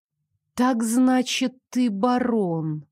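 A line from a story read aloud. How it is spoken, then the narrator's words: Drawled. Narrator (Russian): протянула я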